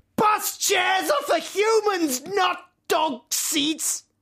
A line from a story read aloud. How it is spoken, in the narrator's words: I went mad, and in my rage, the only thing I could shout was